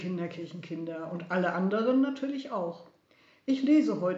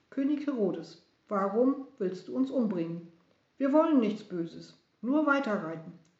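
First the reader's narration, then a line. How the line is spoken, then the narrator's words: Calm girl. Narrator (German): Das Mädchen sagte ganz ruhig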